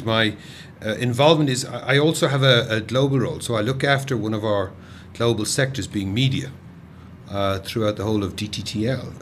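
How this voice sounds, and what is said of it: Irish accent. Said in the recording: “my accent is Irish”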